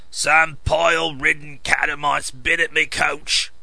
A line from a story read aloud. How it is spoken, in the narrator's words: he roared